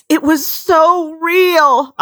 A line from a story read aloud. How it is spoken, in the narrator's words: I cried